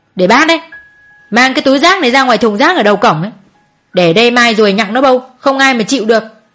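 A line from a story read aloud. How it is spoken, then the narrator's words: Scolding shout. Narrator (Vietnamese): cô Hường quát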